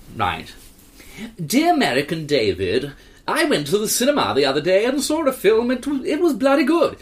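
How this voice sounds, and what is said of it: Put-on posh English accent. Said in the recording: “Do a posh twat accent.”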